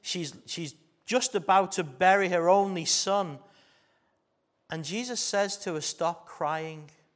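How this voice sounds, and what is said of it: Stronger Scouse accent. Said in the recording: “I'm speaking with a stronger Scouse accent”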